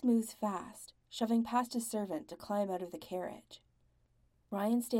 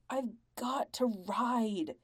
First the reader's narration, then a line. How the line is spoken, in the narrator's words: snarls Tom